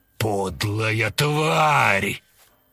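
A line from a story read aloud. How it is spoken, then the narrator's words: Growling. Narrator (Russian): прорычал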